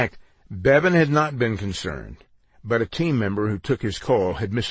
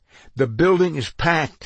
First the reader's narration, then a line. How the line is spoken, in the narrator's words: exclaimed